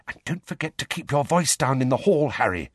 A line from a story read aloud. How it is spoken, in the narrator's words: Hermione whispered